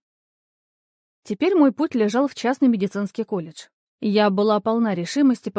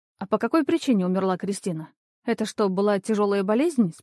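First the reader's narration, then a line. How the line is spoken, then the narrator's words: Plain. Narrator (Russian): спросила я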